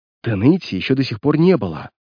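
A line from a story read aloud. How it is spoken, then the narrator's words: Whispered reply. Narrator (Russian): прошептал в ответ Патси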